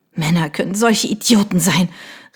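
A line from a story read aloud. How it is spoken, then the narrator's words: Sobbing cry. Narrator (German): rief sie schluchzend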